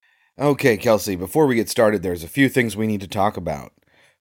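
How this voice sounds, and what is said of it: Unwell-sounding voice. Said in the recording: “I am not feeling great, and that's why my voice sounds like this.”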